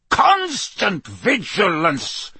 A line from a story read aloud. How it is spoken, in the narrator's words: he barked